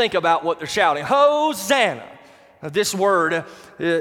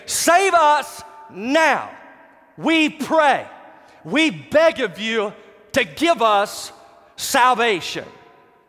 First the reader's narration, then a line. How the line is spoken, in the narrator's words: screaming out to Jesus